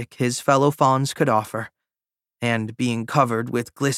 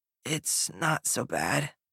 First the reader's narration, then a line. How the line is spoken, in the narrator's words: Don rasped